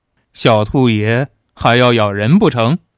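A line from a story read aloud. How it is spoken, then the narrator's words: Sneering. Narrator (Chinese): 黑衣人冷笑着说道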